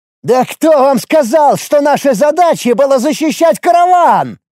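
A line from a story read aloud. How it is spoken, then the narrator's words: Young man openly shouting. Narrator (Russian): Уже откровенно кричал молодой воин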